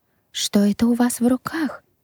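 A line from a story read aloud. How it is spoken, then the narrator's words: Trembling question. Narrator (Russian): дрожащим голосом спросила Аделаида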